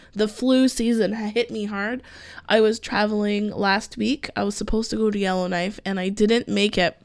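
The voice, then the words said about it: Froggy, hoarse voice. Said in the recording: “my voice sounds a little froggy because I am just recovering from the cold.”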